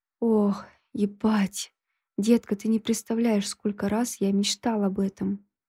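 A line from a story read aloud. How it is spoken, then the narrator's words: Hoarse whisper. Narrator (Russian): Его хриплый шепот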